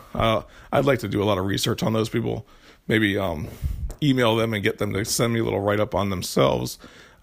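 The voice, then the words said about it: Froggy, hoarse voice. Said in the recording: “hear it in my voice right now, I'm sure. I'm very froggy, and the reason why is because I have a sore throat.”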